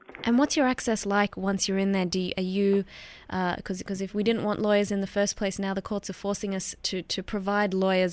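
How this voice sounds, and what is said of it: Australian accent. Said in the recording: “do I detect an Australian accent there? ... Yes, that is an Australian accent.”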